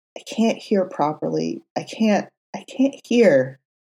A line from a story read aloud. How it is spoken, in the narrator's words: clung to him more tightly and whispered